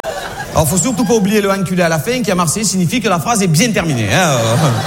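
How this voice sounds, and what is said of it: Marseille French accent. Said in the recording (French): “je le fais bien l'accent ou pas? ... je suis né à Marseille ... je suis né à Marseille, j'ai un accent”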